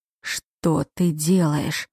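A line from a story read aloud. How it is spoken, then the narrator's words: Hoarse. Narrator (Russian): хрипло произнес он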